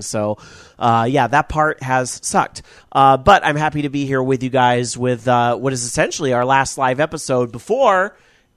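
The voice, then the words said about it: Stuffy, congested voice. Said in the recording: “I'm still a little stuffy. So if I sound a little different than usual, that's what's happening, is I'm getting over a nasty little sinus cold”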